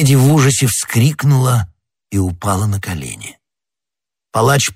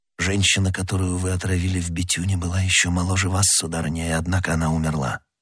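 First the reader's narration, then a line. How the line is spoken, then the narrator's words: Plain. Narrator (Russian): сказал Д'Артаньян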